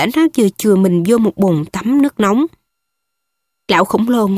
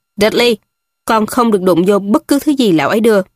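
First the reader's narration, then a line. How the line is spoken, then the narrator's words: Cold hasty scolding. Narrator (Vietnamese): Ông Dudley vội lạnh lùng nạt con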